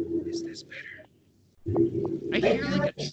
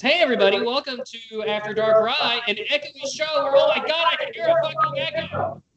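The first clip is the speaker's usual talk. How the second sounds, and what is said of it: Yelling. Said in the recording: “because you're yelling”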